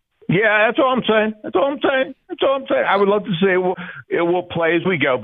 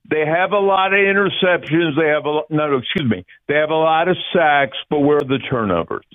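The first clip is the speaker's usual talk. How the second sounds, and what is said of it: Imitates another person's voice. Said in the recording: “my impersonation of Conklin of Reuben Franks ... It's very good ... that sounds Reuben Frankish”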